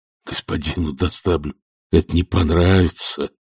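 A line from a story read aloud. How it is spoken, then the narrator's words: Groaned. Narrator (Russian): простонал асфальт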